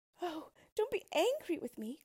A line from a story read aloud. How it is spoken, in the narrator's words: cried the princess